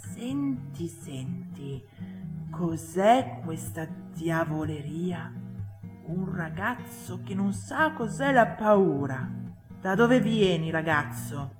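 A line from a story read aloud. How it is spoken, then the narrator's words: Whispered. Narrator (Italian): sussurrava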